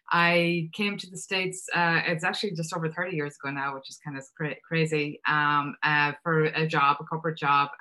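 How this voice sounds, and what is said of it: Irish accent. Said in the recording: “You can hear from the accent that I'm Irish”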